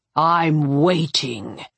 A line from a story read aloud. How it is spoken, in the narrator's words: Gastek said, his voice iced over